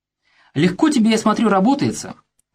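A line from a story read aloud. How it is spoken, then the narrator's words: Exclamation. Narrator (Russian): воскликнул Пафнутьев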